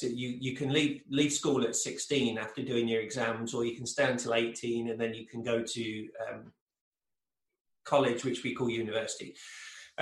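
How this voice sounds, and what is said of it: English accent. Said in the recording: “originally I'm from England, in case people haven't picked up on the accent”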